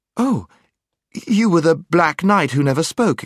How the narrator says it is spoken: exclaimed Jill

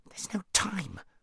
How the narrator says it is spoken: said Shasta in a frantic whisper

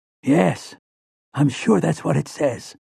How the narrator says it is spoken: Callahan whispered back

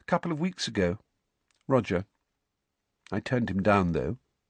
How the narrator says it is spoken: she said in a quiet voice

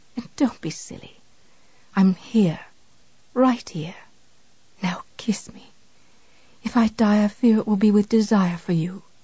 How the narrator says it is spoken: Misery whispered

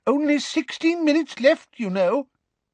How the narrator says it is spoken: said Professor Tofty anxiously

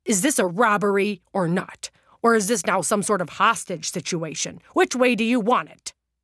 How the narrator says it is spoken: demanded to know loudly and clearly

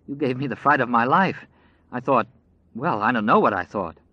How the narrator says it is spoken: Lucy was saying shakily

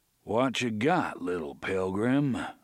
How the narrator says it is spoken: the voice inquired in a leisurely drawl

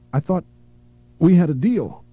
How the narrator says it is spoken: she gasped

